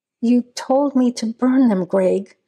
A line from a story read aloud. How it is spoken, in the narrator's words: Hunter said, lying, her voice shaking